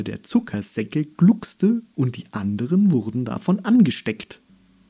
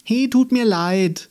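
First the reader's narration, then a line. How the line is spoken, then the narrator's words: Sincere call after. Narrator (German): rief sie dem Nicht-Einhorn hinterher, und das meinte sie ernst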